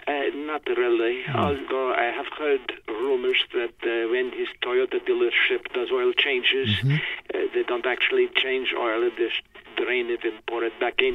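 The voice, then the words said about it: Put-on Russian accent. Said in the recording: “it almost brings back warm feelings to hear that accent ... kicked the Russians out”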